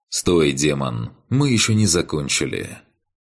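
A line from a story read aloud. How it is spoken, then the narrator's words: Calm. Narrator (Russian): Спокойно произнес мне в спину Кан Шиом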